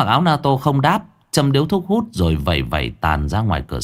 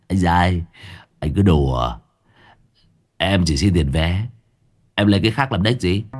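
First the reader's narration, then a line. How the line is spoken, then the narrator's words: Scornful laugh. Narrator (Vietnamese): Tên phụ xe cười nhạt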